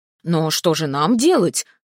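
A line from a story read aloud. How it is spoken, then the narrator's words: Astonished exclamation. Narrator (Russian): воскликнул изумленный таким оборотом Асвард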